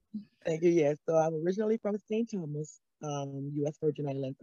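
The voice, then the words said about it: U.S. Virgin Islands accent. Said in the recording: “I was home in the U.S. Virgin Islands, where I'm originally from. As you can hear the accent. ... I love the accent”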